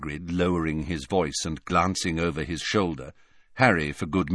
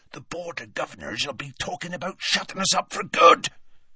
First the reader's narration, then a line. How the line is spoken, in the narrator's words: Hagrid resumed in a hoarse whisper